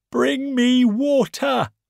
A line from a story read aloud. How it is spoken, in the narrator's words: the wolf cried to the birds